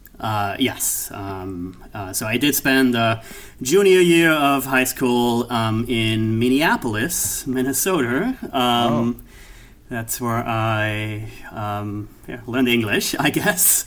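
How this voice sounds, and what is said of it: Austrian accent. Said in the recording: “my accent is from Austria”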